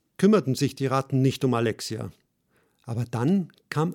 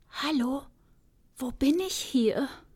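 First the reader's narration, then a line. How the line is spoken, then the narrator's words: Timid soft whisper. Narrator (German): Alexia nahm all ihren Mut zusammen und flüsterte leise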